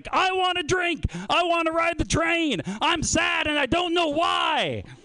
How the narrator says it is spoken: he screams

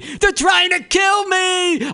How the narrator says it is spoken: I scream over and over again

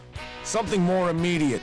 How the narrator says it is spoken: Price shouts back

